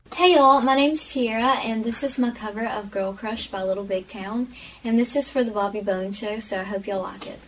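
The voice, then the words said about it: Strong Arkansas Southern accent. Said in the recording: “it's the accent for me. It's just like very prominent in this video. ... I grew up in Arkansas”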